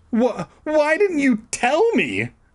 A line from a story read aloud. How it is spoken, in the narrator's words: I shrieked